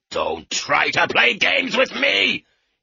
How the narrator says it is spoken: he shouted

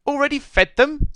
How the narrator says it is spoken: spluttered Mr

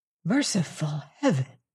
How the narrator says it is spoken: he whispered

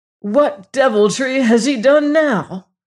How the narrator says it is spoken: he cried in voluntary passion

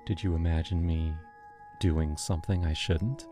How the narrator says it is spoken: whispered

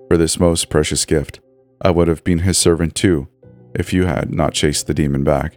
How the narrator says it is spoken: the old body whispered

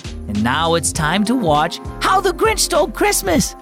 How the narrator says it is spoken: Holly squealed

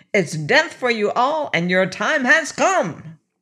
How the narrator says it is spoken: he continued triumphantly

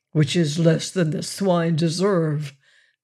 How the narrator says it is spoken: growled Wolverstone

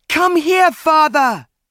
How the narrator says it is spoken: he shouted

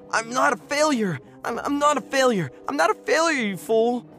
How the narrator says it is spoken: screaming

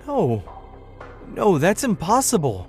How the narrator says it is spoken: I stammered

